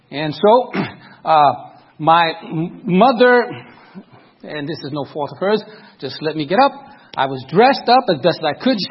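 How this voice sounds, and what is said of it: Brooklyn New York accent. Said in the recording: “I think you can tell by the accent, I'm from Brooklyn, New York.”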